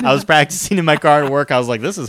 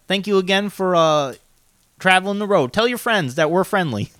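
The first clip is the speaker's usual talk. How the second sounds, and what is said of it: Put-on character accent. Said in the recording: “I know this accent's challenging for me... this is harder than it is... Johnny plays a character similar with this kind of accent”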